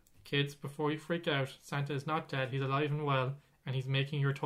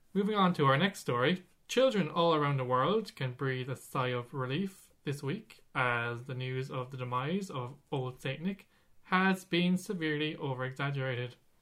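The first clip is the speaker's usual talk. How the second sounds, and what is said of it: News presenter voice. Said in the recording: “That's my news voice again.”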